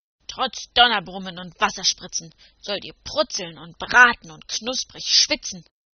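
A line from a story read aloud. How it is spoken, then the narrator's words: Roaring with grunts. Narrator (German): brüllte er mit gräulichem Grunzen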